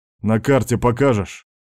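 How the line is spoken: Joyless snort. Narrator (Russian): Пилот невесело хмыкнул

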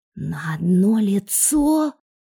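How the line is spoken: Indignant hiss. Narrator (Russian): негодующе прошипел Ленчик

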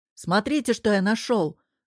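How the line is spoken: Shouting from doorway. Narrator (Russian): закричал Герман с порога

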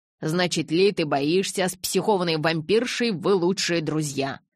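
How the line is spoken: Distant hiss from upstairs. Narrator (Russian): Со второго этажа донеслось шипение

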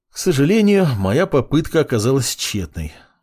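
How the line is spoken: Mage sighing. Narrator (Russian): вздохнул маг

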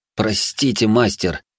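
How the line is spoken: Hissed. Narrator (Russian): прошипел я

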